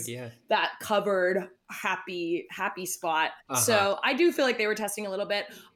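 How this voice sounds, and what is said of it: Low voice with vocal fry. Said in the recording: “my voice sits low. I'm kind of a vocal fryer speaker”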